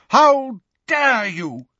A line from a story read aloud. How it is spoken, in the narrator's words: the figure shouted as she ran